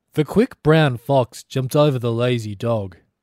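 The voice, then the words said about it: Weird, slightly British put-on accent. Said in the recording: “What's the weird accent you put on it? ... Slightly British.”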